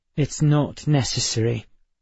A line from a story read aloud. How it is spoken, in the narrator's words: Emma said through clenched teeth